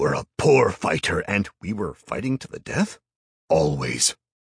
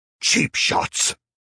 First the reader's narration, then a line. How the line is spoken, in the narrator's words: the devil roared